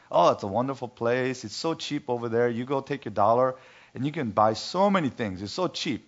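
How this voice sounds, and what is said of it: Heavy Vietnamese accent imitation. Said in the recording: “with her very heavy Vietnamese accent”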